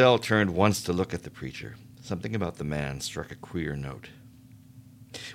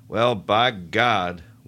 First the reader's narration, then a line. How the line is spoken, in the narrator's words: was saying, loudly rising